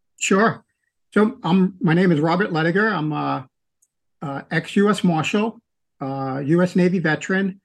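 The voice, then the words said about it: New York accent. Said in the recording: “You can tell from my accent, I'm not from the South. I'm from New York, from Queens”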